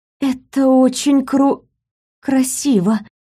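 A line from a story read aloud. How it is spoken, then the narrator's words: Awed breathy exhale. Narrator (Russian): выдохнула, находясь под впечатлением от себя самой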